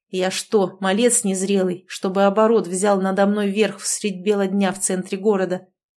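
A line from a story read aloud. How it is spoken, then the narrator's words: Bestial growl. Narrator (Russian): Рыкнул я и сам услышал звериное рычание в голосе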